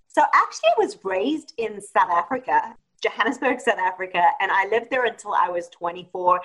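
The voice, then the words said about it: South African accent. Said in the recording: “I hear your accent”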